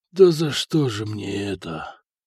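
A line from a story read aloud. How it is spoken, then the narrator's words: Stunned commander's whisper. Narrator (Russian): прошептал ротный, который с трудом осознавал произошедшее на его глазах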